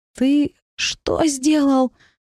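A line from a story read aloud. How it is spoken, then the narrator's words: Hoarse question. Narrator (Russian): хрипло спросила я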